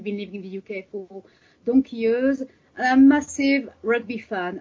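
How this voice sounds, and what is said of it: French accent in English. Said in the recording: “I'm French, as you can hear from my accent.”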